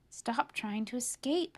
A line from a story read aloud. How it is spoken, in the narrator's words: he whispers to his friends